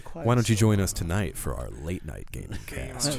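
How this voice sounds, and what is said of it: Radio announcer voice. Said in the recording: “slide in with the radio voice”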